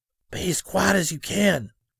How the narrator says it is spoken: Scotty whispered

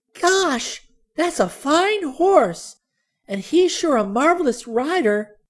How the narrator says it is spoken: breathed Sally admiringly

